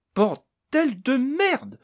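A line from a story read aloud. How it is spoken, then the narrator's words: Sudden exclamation. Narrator (French): s'écria soudain Amélise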